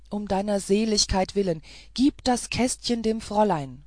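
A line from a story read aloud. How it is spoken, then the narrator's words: Calling out. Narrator (German): rief der Mensch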